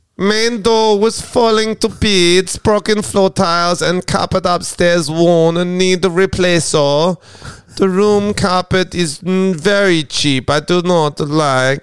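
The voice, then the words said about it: Mock German robot accent. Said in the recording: “Read it in an accent ... broken English is funny in an accent ... I am the German robot ... that wasn't even a good one”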